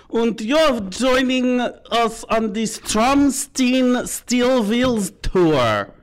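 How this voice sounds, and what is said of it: Put-on German accent. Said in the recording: “My German accent's getting better.”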